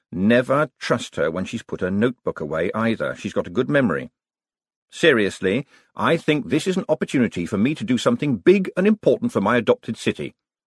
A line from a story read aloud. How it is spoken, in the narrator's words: said Moist, in his sincere voice